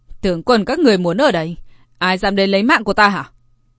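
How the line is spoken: Loud laughing. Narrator (Vietnamese): hắn ta ... cất tiếng cười to

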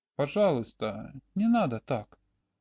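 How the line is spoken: Young woman's sad sigh. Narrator (Russian): Девушка печально вздохнула

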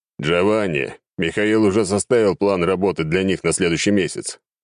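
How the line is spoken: Deep bass male voice. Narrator (Russian): пробасил бородатый мужик

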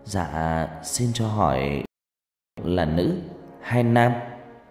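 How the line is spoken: Trembling voice, asking. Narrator (Vietnamese): Thằng Linh cất giọng run run hỏi

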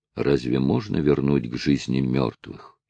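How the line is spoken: Sad. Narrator (Russian): печально проговорил Нать

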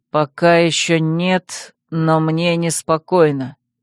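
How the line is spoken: Slow repetition. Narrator (Russian): медленно повторил Вал

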